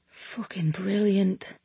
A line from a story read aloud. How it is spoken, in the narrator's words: he whispered